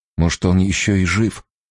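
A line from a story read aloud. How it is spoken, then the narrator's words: Timid question. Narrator (Russian): робко спросил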